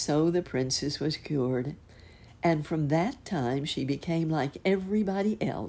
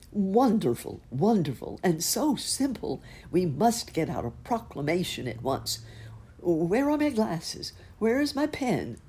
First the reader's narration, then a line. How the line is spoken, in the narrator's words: the prime minister rushed about the room exclaiming